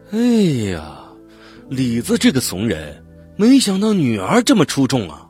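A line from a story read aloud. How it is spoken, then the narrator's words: Admiring exclamation. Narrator (Chinese): 有人在我们身后感叹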